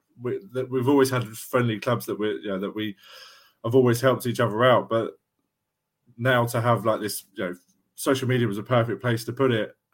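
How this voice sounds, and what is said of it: South London accent. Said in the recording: “I'm based in South London, and as you can tell by my accent compared to you guys”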